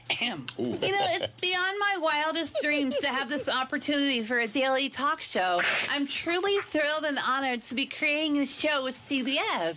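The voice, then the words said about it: Impression of Drew Barrymore. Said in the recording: “that's Heather McDonald's Drew Barrymore impression, so I'm doing an impression of Heather McDonald doing Drew Barrymore”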